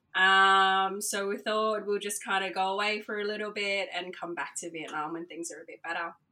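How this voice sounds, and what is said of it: Australian accent. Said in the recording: “your accent sounds Australian ... I am an me. Aussie, yeah.”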